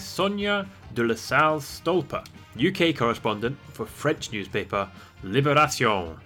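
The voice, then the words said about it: Put-on French accent. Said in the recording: “Check out my French accent.”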